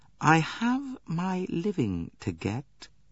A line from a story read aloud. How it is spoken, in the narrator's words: She said in a quiet, even voice, with a trace of hardness in it